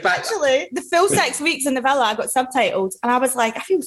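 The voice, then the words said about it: Strong Scottish accent. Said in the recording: “my missus is Scottish ... Your accent is super strong, though, isn't it ... Super strong ... I'm struggling to understand what you're fucking saying ... we're gonna have to subtitle”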